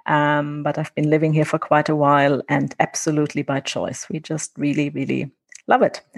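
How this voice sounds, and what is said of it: German accent. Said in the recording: “as you might be able to tell from my accent, I'm not Namibian, I'm German.”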